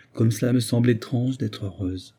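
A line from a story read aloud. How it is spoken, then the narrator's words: Young woman murmuring. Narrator (French): murmura la jeune femme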